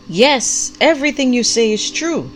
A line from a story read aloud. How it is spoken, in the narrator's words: the prophet called out with equal vigor